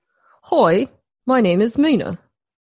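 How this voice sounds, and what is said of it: Put-on British accent, Cockney-leaning. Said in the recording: “you are rounding your lips... this is a version of a British accent for sure... when you round your lips, we're getting, historically at least, progressively less posh... the more we go towards a Cockney sound”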